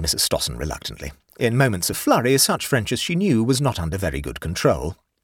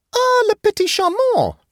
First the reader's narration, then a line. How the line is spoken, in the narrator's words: exclaimed Matilda with enthusiasm